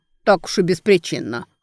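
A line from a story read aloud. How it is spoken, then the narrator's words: Skeptical snort. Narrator (Russian): хмыкнул богатырь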